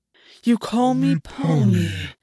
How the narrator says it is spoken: August said, his voice turning deep and terrible

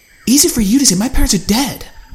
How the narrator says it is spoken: spat back

